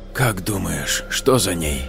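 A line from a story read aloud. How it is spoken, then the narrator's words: Whispered question. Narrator (Russian): шепотом спросил Игнат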